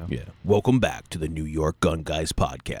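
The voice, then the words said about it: Cool announcer voice. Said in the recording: “I could do like a cool announcer voice”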